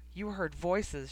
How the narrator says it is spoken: said

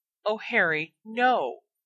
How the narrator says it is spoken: Hermione pleaded

